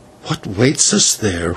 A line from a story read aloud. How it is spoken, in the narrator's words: whispered the señor